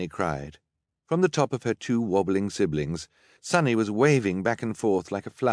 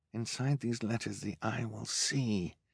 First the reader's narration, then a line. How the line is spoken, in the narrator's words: Klaus muttered again